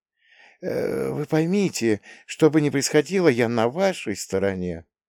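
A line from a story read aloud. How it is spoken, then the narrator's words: Quiet, fervent voice. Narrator (Russian): Мальцев с жаром произнес эту фразу тихим голосом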